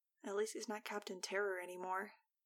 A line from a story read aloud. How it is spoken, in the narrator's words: I murmured to Fang